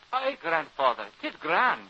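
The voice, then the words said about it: Scottish Highland accent. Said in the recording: “you talk like a bonny Highlander”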